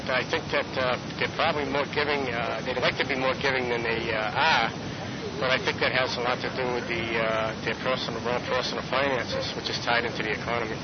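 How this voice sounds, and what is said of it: Massachusetts accent. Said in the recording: “a Massachusetts accent”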